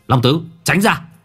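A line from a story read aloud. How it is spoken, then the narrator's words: Shout. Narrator (Vietnamese): Minh Hải hét lên một tiếng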